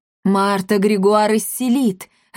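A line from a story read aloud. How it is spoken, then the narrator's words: Joyful. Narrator (Russian): радостно сказал он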